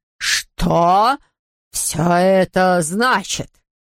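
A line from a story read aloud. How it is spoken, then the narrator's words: Forced out, strained. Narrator (Russian): выдавил профессор Шляймблат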